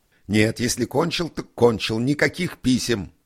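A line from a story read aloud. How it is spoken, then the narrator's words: Shouting. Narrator (Russian): закричал Николай Николаевич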